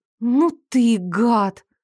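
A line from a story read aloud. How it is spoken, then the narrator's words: Strained, forced out. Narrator (Russian): Только и сумела выдавить из себя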